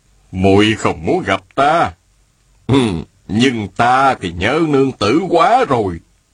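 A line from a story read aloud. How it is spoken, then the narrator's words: Smiling speech. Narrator (Vietnamese): An đại nhân mỉm cười, y nói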